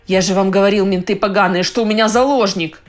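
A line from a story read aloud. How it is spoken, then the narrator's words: Roar. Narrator (Russian): взревел он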